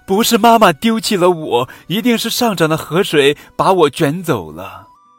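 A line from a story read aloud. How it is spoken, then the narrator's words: Young dinosaur, loud shout. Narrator (Chinese): 小雷龙 大声喊道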